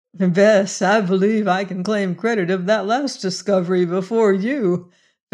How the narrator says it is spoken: Venters said and laughed

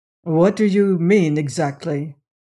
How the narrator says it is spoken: asked

